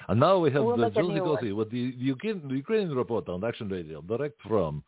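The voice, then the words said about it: Put-on Ukrainian accent. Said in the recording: “Should I do my Ukrainian accent?”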